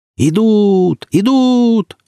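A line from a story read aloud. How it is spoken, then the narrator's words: Joyful shouting, several voices. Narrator (Russian): радостно завопили сразу несколько разведчиков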